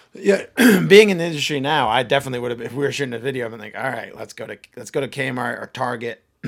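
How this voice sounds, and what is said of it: Hoarse, strained voice. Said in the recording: “Sorry, I'm losing my voice.”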